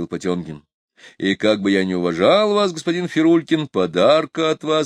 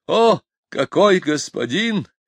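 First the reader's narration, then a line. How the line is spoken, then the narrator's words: Exclaimed. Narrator (Russian): воскликнул Фирулькин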